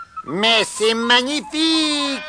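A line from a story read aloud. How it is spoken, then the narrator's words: Delighted smiling exclamation. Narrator (French): s'écria Monsieur Grognon, souriant pour la première fois en voyant les œufs tout frais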